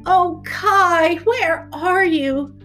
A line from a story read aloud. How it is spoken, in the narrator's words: Gerda cried out